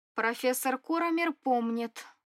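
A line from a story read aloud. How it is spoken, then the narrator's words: Vindictive, snide interjection. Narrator (Russian): мстительно вставила я, ехидно улыбаясь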